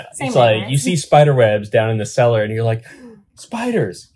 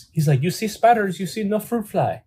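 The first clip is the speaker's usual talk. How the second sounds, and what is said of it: Put-on foreign accent. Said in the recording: “Are we doing accent bits now?”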